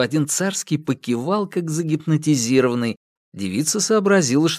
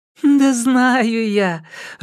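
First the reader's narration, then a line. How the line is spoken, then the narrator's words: Laughing. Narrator (Russian): рассмеялась Мария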